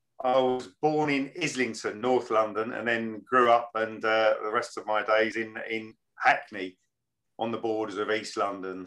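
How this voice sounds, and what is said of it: Clear London accent. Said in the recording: “Originally a Londoner, though, obviously, as you can tell from the clear London accent.”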